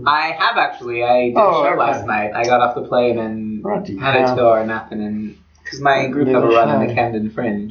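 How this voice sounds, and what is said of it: North American accent. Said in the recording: “I've got this charming North American accent”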